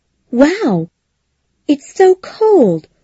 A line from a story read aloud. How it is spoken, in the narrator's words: Connie exclaimed